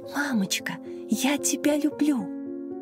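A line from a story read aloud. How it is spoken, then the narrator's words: Small child whispering in ear. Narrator (Russian): Младшая, трехлетняя Маша, шептала ей на ухо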